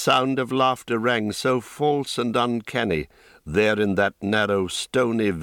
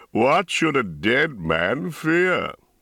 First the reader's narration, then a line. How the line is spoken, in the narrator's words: He laughed